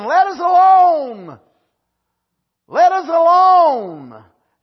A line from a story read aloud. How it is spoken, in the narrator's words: that devil cried out saying